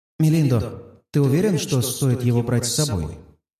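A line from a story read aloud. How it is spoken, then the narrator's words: Calm mental reply. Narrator (Russian): мысленно отвечаю спокойно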